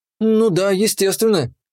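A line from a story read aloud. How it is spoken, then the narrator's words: Confused little girl. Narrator (Russian): растерянно озвучила мелкая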